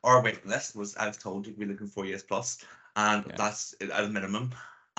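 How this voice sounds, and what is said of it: Northern Irish accent. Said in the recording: “I'm based in Northern Ireland with this lovely accent”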